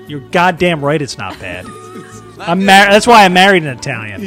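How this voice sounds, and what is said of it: Usual voice. Nothing is said of it.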